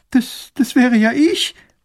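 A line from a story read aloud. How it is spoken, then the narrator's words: Girl sobbing. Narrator (German): schluchzt das Mädchen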